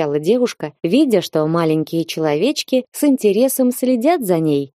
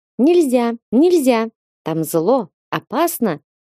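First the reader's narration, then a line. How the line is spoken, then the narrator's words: Squeaking voices. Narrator (Russian): пищали они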